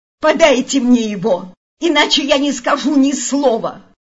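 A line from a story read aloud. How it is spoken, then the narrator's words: Shouted. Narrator (Russian): Он закричал на них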